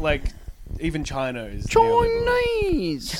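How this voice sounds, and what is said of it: Put-on Chinese accent. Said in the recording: “That's a good Chinese accent. That's good.”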